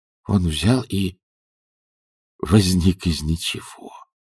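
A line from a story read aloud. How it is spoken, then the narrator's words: Whisper. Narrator (Russian): прошептал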